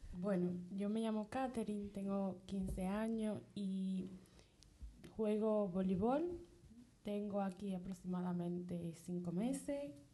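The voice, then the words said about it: Dominican Spanish accent. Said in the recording (Spanish): “me encanta tu acento. ¿De dónde eres? ... República Dominicana.”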